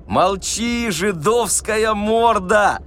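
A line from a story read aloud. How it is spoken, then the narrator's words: Joyful shout. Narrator (Russian): радостно закричал губатый атаман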